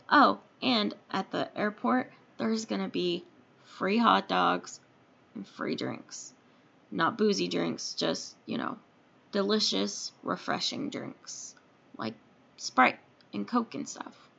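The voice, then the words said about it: Hoarse, strained voice. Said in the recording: “I'm losing my voice. I have allergies.”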